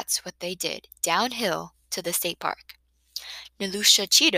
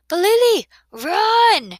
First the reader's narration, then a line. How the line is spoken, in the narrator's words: Chukma hollered